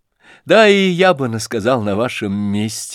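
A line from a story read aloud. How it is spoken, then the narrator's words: Laughing. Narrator (Russian): засмеялся князь Фердыщенко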